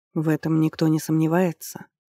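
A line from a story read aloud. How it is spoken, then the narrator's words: Soft objection. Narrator (Russian): мягко возразил Хатепер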